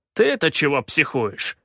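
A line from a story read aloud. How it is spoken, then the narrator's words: Snapped. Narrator (Russian): огрызнулся Калаан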